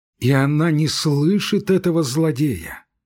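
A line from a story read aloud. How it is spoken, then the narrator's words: Sighing. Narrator (Russian): вздохнул Кукушкин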